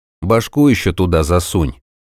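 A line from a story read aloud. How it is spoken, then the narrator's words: Gloomy. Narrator (Russian): мрачно посоветовал Золтан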